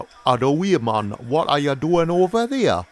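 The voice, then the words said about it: Put-on working-class Newcastle accent. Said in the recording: “do you, Newcastle? ... Yeah, a bit working class”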